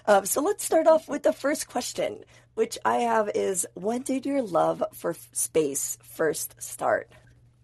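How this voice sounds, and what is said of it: Hoarse, strained voice. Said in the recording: “I just sound absolutely crazy right now... I am recovering from laryngitis, and so please do pardon the voice.”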